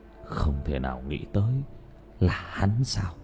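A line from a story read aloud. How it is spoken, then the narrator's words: Whispering. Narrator (Vietnamese): Trang Thái thì thào nói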